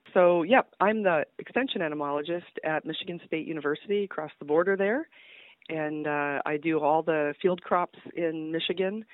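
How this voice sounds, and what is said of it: Congested voice from a cold. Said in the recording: “I've got kind of a cold, so if I sound a little funny ... I've got a little bit of a cold.”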